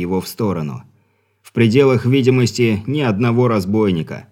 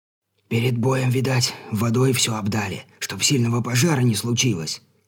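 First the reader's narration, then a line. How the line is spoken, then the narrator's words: Whispering helmsman. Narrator (Russian): шепотом произносит оказавшийся рядом кормчий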